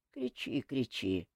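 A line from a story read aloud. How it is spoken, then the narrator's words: Calm. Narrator (Russian): спокойно отозвался Кантор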